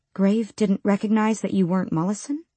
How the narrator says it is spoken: She asked as calmly as she could

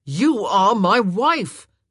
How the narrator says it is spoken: he roared

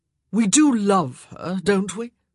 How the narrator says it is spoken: Daphne choked on a laugh

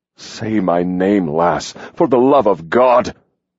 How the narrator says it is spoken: Hawk roared

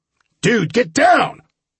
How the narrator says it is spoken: Sam shouted

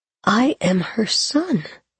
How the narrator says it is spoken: he whispered aloud

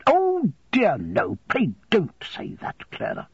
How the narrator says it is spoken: interposed Miss Murdstone angrily

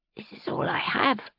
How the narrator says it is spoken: she said, her voice hoarse as a young toad's

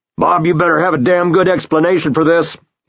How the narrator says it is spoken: he bellows

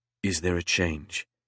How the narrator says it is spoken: asked in a low voice

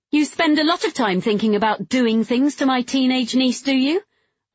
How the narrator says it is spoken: I said loudly

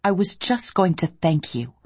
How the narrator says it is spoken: I said crossly

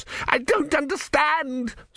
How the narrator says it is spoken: screamed Vorbis

